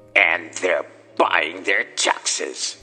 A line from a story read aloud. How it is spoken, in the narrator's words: snarled with a sneer